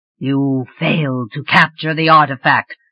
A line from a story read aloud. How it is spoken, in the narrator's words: he said, his voice rumbling dangerously